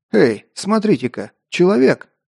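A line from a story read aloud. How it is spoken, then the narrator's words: Surprised exclamation from crowd. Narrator (Russian): удивленно воскликнул чей-то голос в толпе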